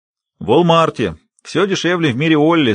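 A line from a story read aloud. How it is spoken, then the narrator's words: Old man laughing, then serious. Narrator (Russian): старик рассмеялся, но тут же вновь стал серьезным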